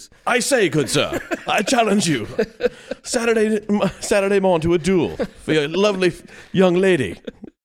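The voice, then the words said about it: Put-on Victorian gentleman voice. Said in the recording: “my impersonation of a Victorian man ... It's terrible”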